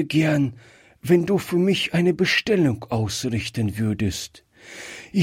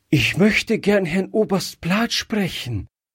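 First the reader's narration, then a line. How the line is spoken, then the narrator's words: Breathless. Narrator (German): sagte Gretchen noch atemlos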